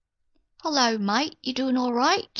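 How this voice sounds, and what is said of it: Failed fake Australian accent. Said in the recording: “I was trying to fake an Australian accent. Failed, I guess.”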